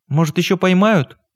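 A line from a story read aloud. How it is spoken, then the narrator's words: Timid question. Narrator (Russian): робко спросила Таня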